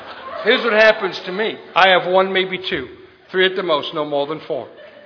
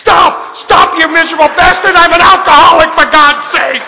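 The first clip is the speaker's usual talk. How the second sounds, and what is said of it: Screaming. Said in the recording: “I'm screaming,”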